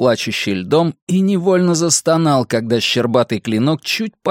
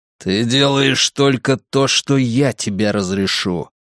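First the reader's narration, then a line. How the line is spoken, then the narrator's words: Hissed. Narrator (Russian): прошипел Драккайнен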